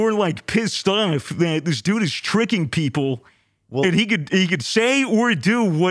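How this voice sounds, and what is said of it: Usual voice. Nothing is said of it.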